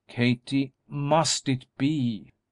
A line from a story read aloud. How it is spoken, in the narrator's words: Darrell exclaimed, each word vibrating with anguish